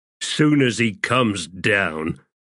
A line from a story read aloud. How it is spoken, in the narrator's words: Stormy growled